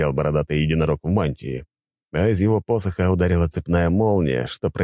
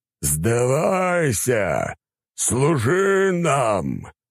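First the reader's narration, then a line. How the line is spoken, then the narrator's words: Growling monster. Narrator (Russian): рычал монстр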